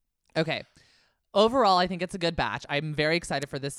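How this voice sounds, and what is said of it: Usual voice. Nothing is said of it.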